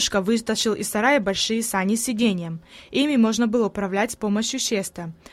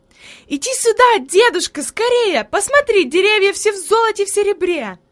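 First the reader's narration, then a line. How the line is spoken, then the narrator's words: Joyful shout. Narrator (Russian): Хайди запрыгала от радости и закричала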